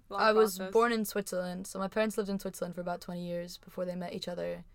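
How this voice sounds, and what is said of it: American accent. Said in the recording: “moved to New Jersey in the U.S., got the accent, can't get rid of it”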